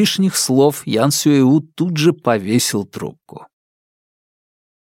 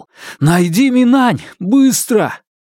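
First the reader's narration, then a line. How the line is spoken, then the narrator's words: Shout. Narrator (Russian): Фанму крикнул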